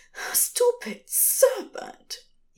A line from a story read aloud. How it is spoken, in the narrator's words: he says, once, breathlessly